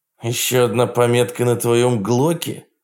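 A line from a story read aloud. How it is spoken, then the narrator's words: Growled. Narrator (Russian): прорычал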